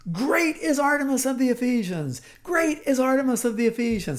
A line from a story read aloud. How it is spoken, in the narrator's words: I have my whole group shout